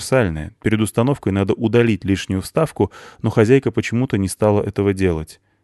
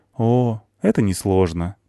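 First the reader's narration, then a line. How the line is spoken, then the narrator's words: Woman, sad smiling. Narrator (Russian): печально улыбнулась женщина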